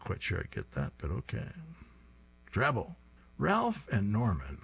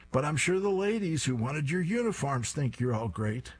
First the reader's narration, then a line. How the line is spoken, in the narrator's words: Fang then screams even louder